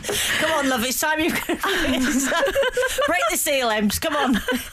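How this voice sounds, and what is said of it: Put-on northern English accent. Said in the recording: “I've given your dog a northern accent”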